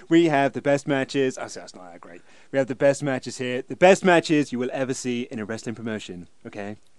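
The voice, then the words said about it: Imitates another person's voice. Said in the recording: “I thought Kurt Angle sounded a bit like Trump here ... you do a better impression ... Have I done the Trump impression on here?”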